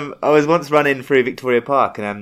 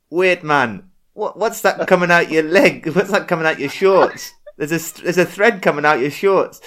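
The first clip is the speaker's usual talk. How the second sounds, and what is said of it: Attempted Rasta accent, sounding Geordie. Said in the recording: “a Rasta stopped me. I'm not going to be able to do the accent ... I sounded a little more like a Geordie, didn't I?”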